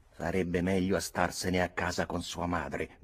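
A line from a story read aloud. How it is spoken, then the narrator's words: Aunt grumbling. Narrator (Italian): brontolò mia zia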